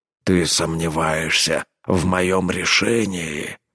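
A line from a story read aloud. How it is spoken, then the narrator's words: Growl. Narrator (Russian): прорычал Рорк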